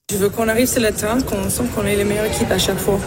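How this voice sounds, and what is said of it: French with slight American accent. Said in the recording (French): “Un petit fond d'accent américain quand même”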